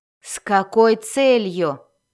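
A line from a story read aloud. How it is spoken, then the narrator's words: Growling. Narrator (Russian): прорычала Бриза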